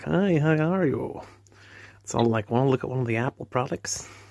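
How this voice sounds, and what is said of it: Put-on American accent. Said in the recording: “Talking in the American accents.”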